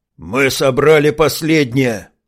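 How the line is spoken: Angry snapping retort. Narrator (Russian): зло окрысился в ответ сыроед

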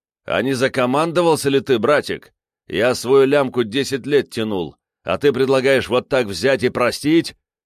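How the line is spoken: Ear-ringing yelling. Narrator (Russian): Он так громко орал, что в ухе зазвенело

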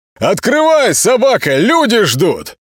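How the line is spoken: Sharp, loud yell. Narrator (Russian): Молчан заорал так резко и громко

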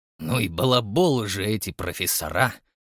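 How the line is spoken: Grumpy grumbling. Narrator (Russian): проворчал сварливый Джон

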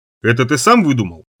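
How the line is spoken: Plain. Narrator (Russian): спросил я

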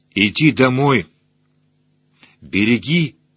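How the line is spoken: Even, calm voice. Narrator (Russian): ровным голосом сказала я Молчану

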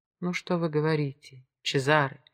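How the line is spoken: Soft, gentle. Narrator (Russian): мягко сказала

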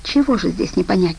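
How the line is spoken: Guard's fervent whisper. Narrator (Russian): горячо зашептал охранник

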